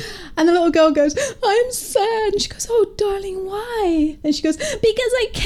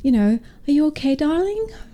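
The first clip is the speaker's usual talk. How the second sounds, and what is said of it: Attempted American accent sounding Irish. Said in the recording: “actually, that's not how American accent speaks ... Sounding Irish there”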